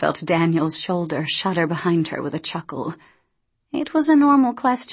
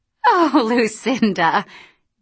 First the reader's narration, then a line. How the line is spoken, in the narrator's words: Dee was laughing